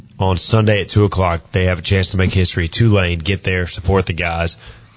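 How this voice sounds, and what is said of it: Hoarse, strained voice. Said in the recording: “I've been screaming for the past 40 minutes ... I've lost my voice.”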